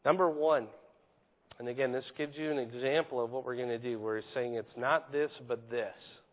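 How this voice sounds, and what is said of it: Weak voice. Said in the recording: “give my voice strength in the midst of recovering from a cold”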